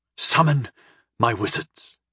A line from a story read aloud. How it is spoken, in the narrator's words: I ordered, my voice hoarse and shaking